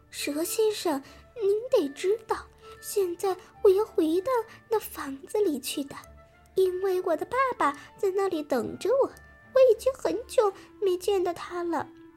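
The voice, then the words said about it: Sweet thin childlike voice. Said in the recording (Chinese): “很甜很细的声音”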